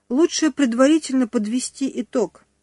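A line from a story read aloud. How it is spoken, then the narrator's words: Sighing. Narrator (Russian): вздохнула кассирша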